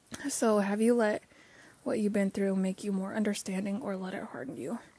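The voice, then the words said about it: Rough, strained voice. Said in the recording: “My voice is having a rough day, as I'm sure you can tell.”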